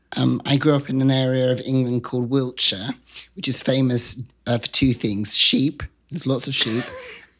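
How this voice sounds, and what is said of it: English accent. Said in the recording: “you've got this beautiful accent”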